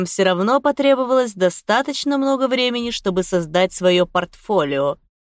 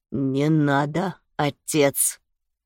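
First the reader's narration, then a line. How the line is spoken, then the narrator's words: Muffled, dull. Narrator (Russian): глухо сказал Феликс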